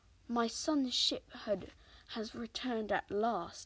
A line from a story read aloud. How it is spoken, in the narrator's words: he sighed